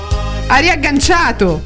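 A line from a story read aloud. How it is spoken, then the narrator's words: Shouting. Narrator (Italian): gridai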